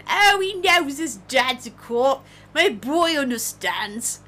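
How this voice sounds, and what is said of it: Attempted New Jersey accent. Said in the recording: “this is New York, but my brain goes to Jersey, but that's not really the actual Jersey accent ... I can't keep an accent.”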